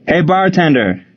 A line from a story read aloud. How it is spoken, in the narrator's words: Frank called out